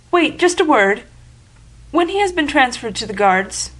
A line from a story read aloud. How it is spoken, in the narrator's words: she faltered